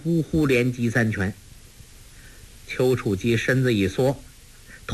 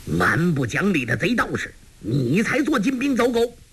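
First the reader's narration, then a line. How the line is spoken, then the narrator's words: Angry shout. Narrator (Chinese): 张阿生大怒，喝道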